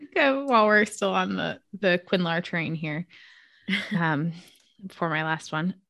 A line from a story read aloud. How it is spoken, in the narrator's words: he laughed softly, a sound of wonder